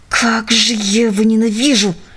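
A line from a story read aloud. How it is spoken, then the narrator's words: Hiss through clenched teeth. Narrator (Russian): прошипел Джек сквозь стиснутые зубы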